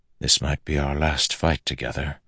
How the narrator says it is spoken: Adolin said softly

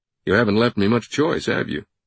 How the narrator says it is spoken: Langdon chuckled

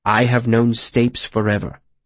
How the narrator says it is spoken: the mayor said firmly

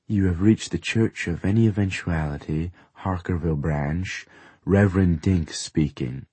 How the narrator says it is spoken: I say in my smoothest voice

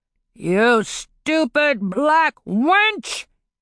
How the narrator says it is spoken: he roared

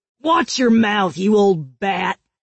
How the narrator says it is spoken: the woman growled

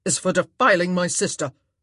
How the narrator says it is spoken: Anthony spat out

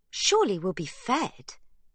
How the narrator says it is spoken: exclaims Sibby

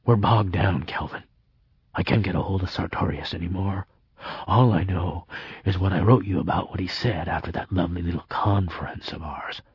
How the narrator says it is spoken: leaning in so close I could feel the warmth of his breath on my face, he whispered

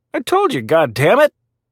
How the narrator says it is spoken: He snapped at her

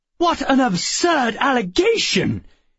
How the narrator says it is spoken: cried

